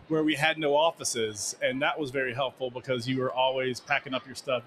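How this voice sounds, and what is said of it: Smooth, pleasing podcast-style voice. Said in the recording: “has the best podcast voice ... It is a very, very good podcast voice.”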